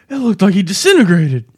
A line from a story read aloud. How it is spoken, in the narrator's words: Dwayne exclaimed